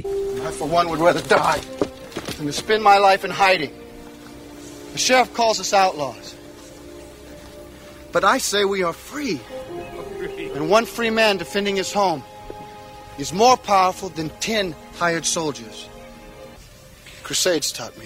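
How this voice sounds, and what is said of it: Kevin Costner's own accent, no British attempt. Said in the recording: “Kevin Costner's British accent was a thing of beauty ... that's not a British accent. He's just speaking ... He's not attempting an accent ... That's Kevin Costner's accent ... that's just his actual accent”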